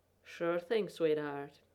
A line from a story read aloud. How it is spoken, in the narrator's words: he said, in that rumbling purr of a voice